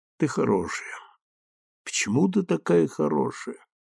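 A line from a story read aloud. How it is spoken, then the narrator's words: Muttered. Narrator (Russian): пробормотал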